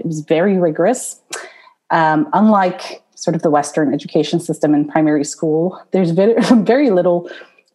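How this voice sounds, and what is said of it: Non-British accent in English. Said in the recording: “I was not born in the UK, as you can probably see from my accent,”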